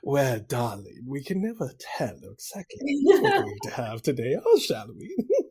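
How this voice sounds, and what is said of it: Welcoming yet sinister character voice. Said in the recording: “do a different voice ... That one seems like a very welcoming, like, ... person that murders you in the basement or something when you go in for tea.”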